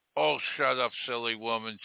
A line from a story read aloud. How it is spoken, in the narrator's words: sighed the reptile with a grin